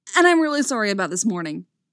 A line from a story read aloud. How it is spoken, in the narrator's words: he blurts out